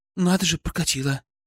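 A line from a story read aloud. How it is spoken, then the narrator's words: Relieved exhale. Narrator (Russian): выдохнула Пестрякова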